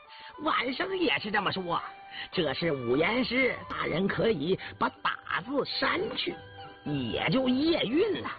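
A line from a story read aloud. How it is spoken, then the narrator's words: Suppressing laughter. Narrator (Chinese): 钱渡忍笑着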